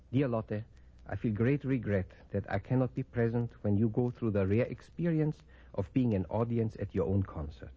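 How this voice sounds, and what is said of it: Viennese accent. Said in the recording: “my Viennese accent”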